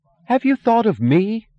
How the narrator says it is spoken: she screamed, her voice breaking

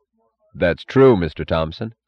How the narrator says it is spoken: said Dr

